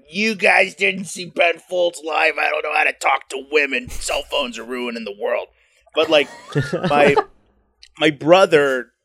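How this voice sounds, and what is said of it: Imitates another person's voice. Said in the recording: “was best that your Mark Maron impression?”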